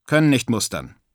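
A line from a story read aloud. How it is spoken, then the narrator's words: Plain. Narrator (German): sagte er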